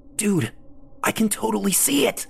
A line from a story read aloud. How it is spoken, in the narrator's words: Lee hissed